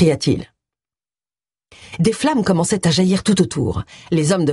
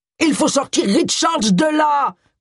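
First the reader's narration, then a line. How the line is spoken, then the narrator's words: Shouted. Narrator (French): cria Charles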